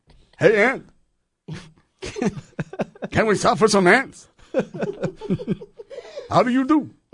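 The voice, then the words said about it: Cartoon aardvark character voice. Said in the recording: “I still sound like that stupid aardvark from the cartoons... that you're the aardvark wise man”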